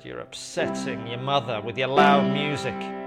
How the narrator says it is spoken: he shouted back and said

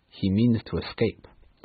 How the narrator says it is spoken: said the Professor

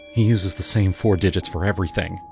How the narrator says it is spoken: Maya muttered

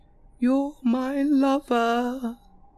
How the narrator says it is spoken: she wailed

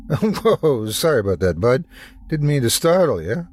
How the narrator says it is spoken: laughed an elderly man

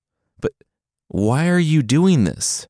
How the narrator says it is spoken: the son pleaded

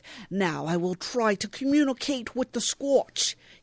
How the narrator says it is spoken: he bellows

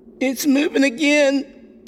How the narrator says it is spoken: Kevin squealed

